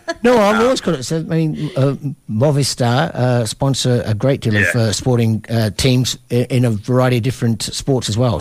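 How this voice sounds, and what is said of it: Australian accent. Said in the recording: “my Australian accent coming through”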